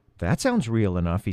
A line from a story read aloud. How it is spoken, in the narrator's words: he said